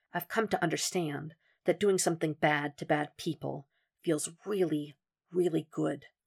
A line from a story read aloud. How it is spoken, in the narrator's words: Will whispered to him